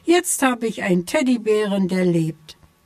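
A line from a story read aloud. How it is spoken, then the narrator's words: Shouted. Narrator (German): schrie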